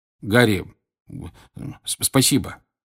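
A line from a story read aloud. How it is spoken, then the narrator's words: Mumbling. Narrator (Russian): бормотал Джордж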